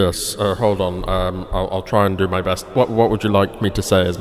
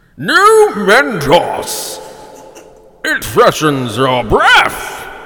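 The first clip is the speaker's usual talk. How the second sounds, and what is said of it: Imitates another person's voice. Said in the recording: “do a Toast of London impersonation ... as Matt Berry”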